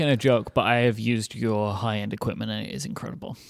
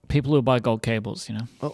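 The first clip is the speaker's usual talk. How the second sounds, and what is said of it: Slightly sarcastic tone. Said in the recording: “a tiny bit of accent of sarcasm in your voice”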